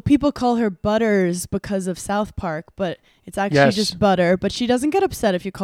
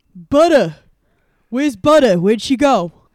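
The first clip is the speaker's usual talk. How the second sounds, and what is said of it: Put-on New York accent. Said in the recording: “it's a good name in a New York accent.”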